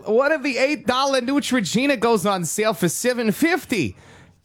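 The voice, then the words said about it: Put-on Minnesota accent. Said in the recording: “I don't know why that turned into like a weird Minnesota accent”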